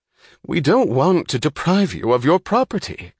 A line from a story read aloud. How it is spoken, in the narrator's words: cried Dr